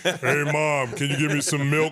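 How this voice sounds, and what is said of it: Baby talking in deep voice. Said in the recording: “were you one of those guys that you had a deep voice as a baby?”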